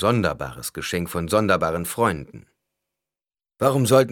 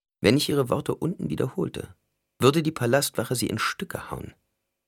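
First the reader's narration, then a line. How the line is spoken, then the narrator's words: Quiet. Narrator (German): Alia sagte leise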